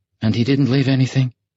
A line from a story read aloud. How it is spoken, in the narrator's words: She asked timidly